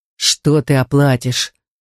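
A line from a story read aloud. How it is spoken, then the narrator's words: Wolf's growl. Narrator (Russian): зарычал волк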